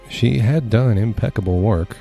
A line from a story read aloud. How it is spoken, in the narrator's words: her tutor sighed